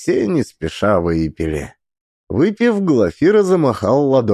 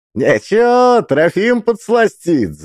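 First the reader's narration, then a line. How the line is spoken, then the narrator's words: Laughing. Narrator (Russian): засмеялся Игнат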